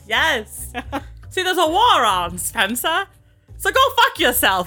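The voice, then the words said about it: Transatlantic accent. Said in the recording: “do it in the transatlantic accent I was just doing.”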